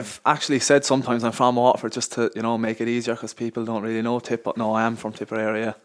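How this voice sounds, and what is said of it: Irish Tipperary accent. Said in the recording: “he is from Carrickmanshore ... John Kelly type accent”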